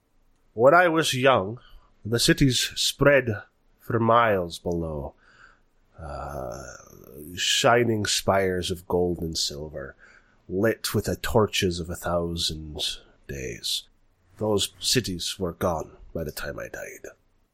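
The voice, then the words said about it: Put-on shifting Irish-Scottish accent. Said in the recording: “you're Scottish now ... your accent keeps sort of vaguely shifting ... it was more Irish than Scottish ... It was a vaguely Nordic, vaguely Irish sort of sounding”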